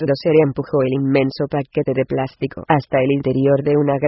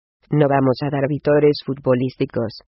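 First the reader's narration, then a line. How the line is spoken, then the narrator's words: Plain. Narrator (Spanish): dijo Guión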